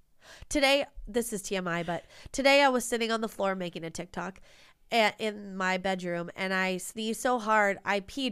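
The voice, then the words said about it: Nasal voice from a cold. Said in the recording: “I have a cold. So if I sound a little nasally”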